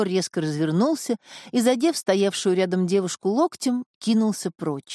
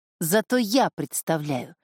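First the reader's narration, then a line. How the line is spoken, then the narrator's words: Spat through teeth. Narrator (Russian): сквозь зубы выплюнул Исидор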